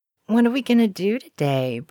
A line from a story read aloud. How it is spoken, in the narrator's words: Brianna asked drowsily